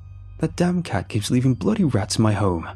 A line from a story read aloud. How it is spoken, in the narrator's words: he cried